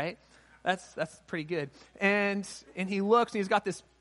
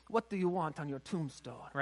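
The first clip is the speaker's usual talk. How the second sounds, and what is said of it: Really bad put-on accent. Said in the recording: “in this really bad accent”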